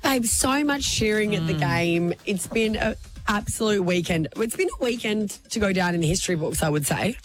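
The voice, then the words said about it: Raspy, worn-out voice. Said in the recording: “My voice is a little bit more raspy than it usually is. ... I'm surprised you still have a voice. Lots of cheering at the game was done.”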